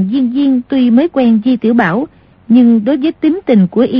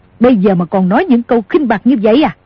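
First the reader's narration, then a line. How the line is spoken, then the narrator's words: Angry shout. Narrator (Vietnamese): Cửu Nạn tức giận quát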